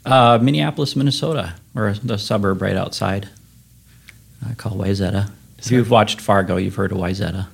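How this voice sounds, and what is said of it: Slight Minnesota accent. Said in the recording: “I detected a bit of an accent”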